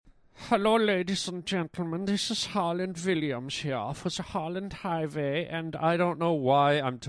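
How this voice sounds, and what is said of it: Mock Swiss-German-Polish accent. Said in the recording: “talking like a Swiss, German, Polish guy ... as I said in another accent”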